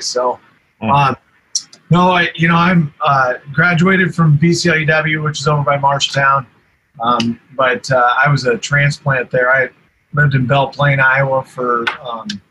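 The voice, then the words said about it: Strained, fading voice. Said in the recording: “I did lose my voice, between Friday night and Saturday, two football games, and just talking over loudspeakers at Iowa State yesterday. I'm losing my voice,”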